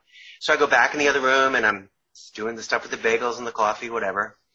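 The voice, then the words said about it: New York accent. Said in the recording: “Oh, coffee, there's my New York accent there”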